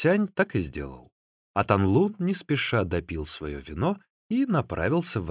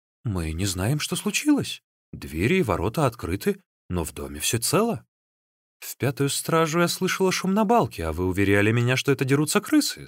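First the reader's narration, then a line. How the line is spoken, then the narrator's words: Plain. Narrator (Russian): сказала тогда хозяйка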